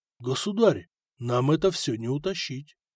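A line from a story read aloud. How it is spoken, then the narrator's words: Said quietly. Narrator (Russian): Ваган негромко сказал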